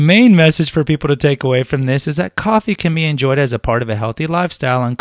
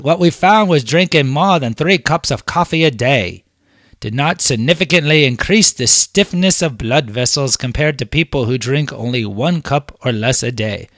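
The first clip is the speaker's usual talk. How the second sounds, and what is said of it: Poor attempt at cockney accent. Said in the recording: “Oh, that's horrible, British accent. Let me do my cockney. ... That was a horrible. Was that like Scottish Russian?”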